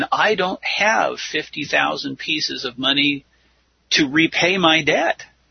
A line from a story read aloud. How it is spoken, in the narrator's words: the guy pleaded for his life, saying